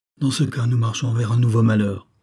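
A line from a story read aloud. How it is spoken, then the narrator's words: Exclaimed. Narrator (French): maître Thirion s'écria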